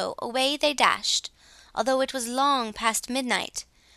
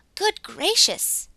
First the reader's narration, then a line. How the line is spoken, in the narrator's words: exclaimed Glossie